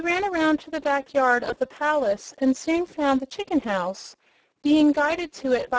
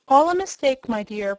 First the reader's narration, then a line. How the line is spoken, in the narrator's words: protested the lion gravely